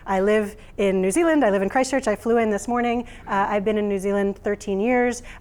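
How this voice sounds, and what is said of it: American accent. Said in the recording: “I know you can tell from my accent that I'm not originally from New Zealand ... as soon as I say that I'm from America”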